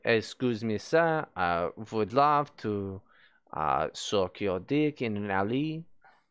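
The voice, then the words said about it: Exaggerated French accent, documentary-narrator tone. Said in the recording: “This is a very French accent. ... it also sounds like I am a narrator for an underwater documentary.”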